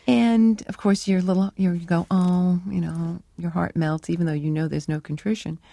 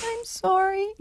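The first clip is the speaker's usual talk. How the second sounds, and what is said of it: Pathetic little voice. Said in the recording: “say it in this pathetic little voice”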